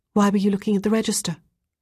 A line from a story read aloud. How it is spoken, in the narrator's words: Ruth asked quickly